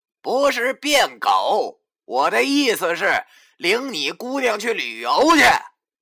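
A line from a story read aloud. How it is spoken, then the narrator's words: Loud. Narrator (Chinese): 文叔对着甄老爷子大声的说道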